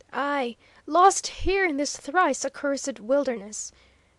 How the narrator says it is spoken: passionately cried the exile

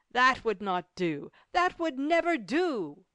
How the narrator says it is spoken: exclaimed several of the printers at once

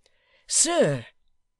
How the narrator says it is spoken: cried the man

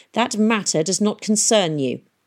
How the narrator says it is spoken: he snapped

